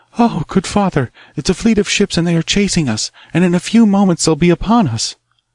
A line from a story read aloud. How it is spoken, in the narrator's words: The youth shrieked and cried